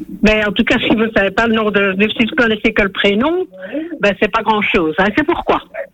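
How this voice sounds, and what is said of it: Slight regional French accent. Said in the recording (French): “Vous avez un petit accent déjà.”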